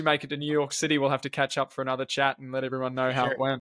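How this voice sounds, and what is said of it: Australian accent. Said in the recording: “I love hearing the Aussie accent again.”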